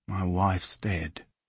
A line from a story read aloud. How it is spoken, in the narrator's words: In the days following Evie's death, Carl whispered the words